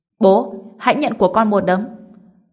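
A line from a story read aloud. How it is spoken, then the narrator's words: Shouting. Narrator (Vietnamese): Lý Nguyên Tượng hét lên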